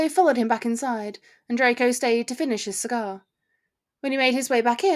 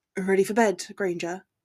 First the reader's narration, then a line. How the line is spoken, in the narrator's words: he murmured in her ear